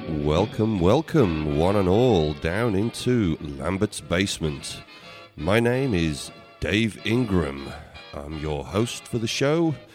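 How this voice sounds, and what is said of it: Congested voice from a cold. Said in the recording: “as you can probably tell by my voice, I'm suffering from a rather nasty cold”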